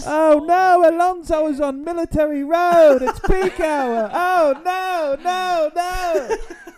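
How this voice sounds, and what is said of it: Imitates a motor racing commentator. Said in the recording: “That was a good Murray Walker impression.”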